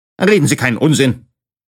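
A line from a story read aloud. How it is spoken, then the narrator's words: Stern man interjecting. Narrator (German): mischte sich ein streng aussehender Herr ein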